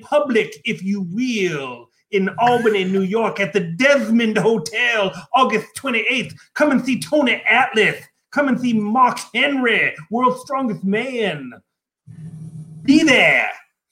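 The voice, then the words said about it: Dusty Rhodes impression. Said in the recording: “That is a, phenomenal Dusty Rhodes impression.”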